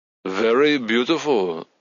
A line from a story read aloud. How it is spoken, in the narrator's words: he repeated in his German accent